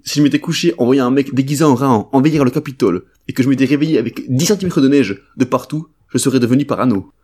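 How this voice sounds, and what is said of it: Put-on Marseille French accent. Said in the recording (French): “un mec avec l'accent marseillais ... si je prends pas l'accent, j'ai l'articulation d'un bison en fin de vie”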